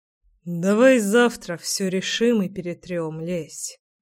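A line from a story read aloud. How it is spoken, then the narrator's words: Weary sigh. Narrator (Russian): устало вздохнул Гром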